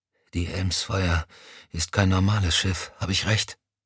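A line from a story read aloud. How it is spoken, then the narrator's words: Exhausted whisper. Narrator (German): Erschöpft ... flüsterte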